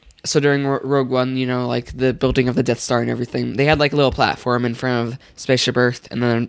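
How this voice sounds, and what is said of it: Usual voice. Nothing is said of it.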